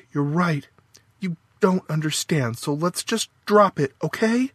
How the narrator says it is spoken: Sharply, Faith said

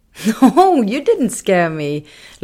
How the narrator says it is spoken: laughed Bunky

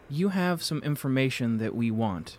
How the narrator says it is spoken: Ty said

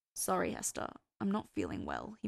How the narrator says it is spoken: he muttered

